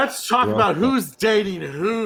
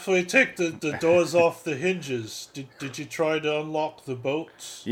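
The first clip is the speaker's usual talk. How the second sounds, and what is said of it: Deliberately bad accent imitation. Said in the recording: “Donald Pleasant's accent ... is so hilarious ... Yeah, it's really bad.”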